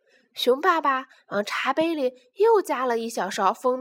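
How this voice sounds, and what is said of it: Usual voice. Nothing is said of it.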